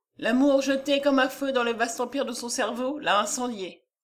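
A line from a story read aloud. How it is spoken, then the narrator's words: Plain. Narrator (French): dit Léon Giraud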